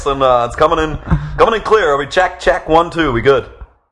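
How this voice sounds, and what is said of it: Put-on radio announcer voice. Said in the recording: “This is my radio voice”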